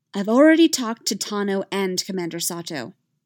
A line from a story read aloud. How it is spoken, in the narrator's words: Hera said, her voice steely